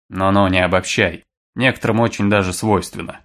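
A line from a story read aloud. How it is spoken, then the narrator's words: Grunting. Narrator (Russian): хмыкнул Аврел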